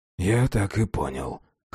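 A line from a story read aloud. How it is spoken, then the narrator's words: Hoarse whisper. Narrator (Russian): хрипло прошептал Феликс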